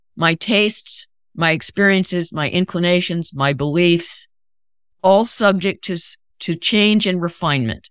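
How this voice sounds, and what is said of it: Strong American accent. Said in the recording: “I still have a strong American accent”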